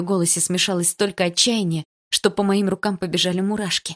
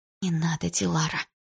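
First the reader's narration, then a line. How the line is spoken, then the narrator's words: Whisper. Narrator (Russian): прошептала я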